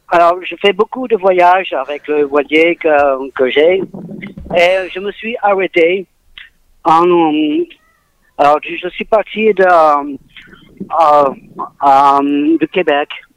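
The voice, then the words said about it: Slight English accent in French. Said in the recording (French): “j'ai un petit accent d'anglais”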